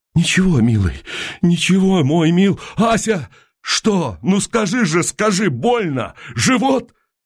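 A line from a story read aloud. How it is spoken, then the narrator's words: Choking back sobs. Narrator (Russian): Она глотала душившие ее рыдания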